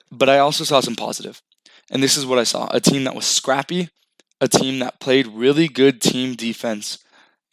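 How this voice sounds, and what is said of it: Hoarse, cracking, worn-out voice. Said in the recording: “I still have like my voice lost and my voice is cracking from the game”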